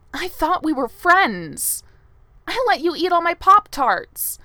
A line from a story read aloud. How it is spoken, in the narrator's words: says, her voice cracking